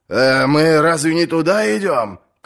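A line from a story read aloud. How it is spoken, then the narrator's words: Shout. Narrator (Russian): крикнул сир Хиль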